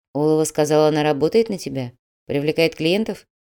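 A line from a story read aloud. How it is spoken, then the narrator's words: Quiet, measured. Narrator (Russian): Грязнов говорил негромко, размеренно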